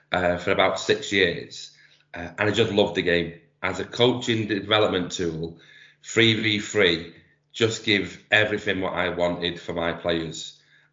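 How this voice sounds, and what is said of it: Manchester accent. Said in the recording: “I've been doing 3v3 in Manchester, you can probably tell from my accent”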